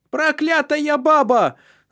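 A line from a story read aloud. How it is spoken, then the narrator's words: Shouted. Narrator (Russian): закричала Фреда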